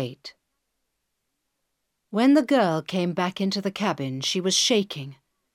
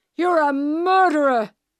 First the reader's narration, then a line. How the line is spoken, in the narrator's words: he shouted